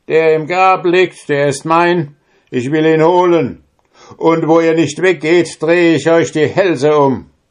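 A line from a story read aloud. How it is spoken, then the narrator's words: Calling out. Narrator (German): rief ihnen zu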